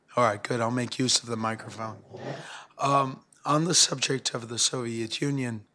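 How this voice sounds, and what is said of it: Hoarse, sore-throated voice. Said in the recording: “I have a sore throat”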